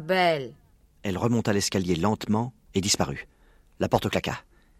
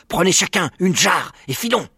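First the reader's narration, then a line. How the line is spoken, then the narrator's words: Shouted. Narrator (French): Le rat était debout, sur sa haute étagère, et il cria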